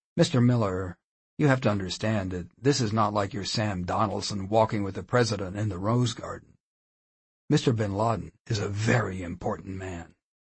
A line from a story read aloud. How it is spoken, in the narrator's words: He chuckled and continued